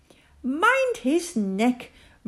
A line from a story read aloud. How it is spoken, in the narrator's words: Matthew shouted